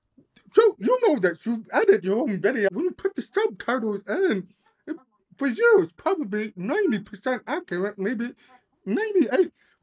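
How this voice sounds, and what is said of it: Accented, forceful, loud speech. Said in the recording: “because of my accent ... I'm forceful enough, I'm speaking loud enough”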